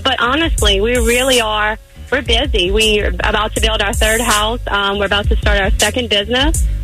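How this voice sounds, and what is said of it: Louisiana Southern American accent. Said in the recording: “I can tell you from Louisiana. I can hear that accent.”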